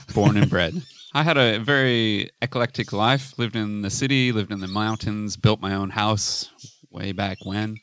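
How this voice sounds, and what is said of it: Californian American accent. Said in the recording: “if you can't tell from my accent, I'm Californian”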